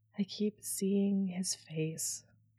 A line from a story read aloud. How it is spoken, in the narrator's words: Zavala murmured